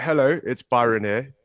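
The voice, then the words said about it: Put-on British accent. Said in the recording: “I don't hear no British accent in you ... I can do a very good one.”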